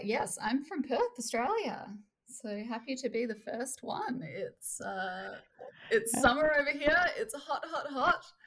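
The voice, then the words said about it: Australian accent. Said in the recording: “People are listening to the accent.”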